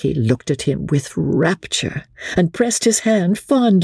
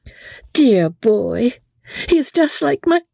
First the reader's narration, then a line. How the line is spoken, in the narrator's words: emotion choked her speech